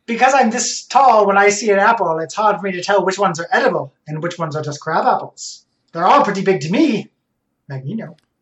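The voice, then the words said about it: Put-on mid-Atlantic accent. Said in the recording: “Mid-Atlantic, Magneto, your mid-Atlantic accent or whatever the fuck you're doing did make it a little hard to parse.”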